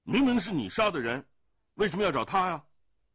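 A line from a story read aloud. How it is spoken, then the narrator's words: Angry shout. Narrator (Chinese): 降龙怒喝道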